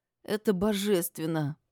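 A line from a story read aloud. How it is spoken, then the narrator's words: Mumbling while eating. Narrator (Russian): пробормотала я, откусывая кусочек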